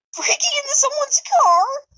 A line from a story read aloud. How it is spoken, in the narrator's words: He shrieked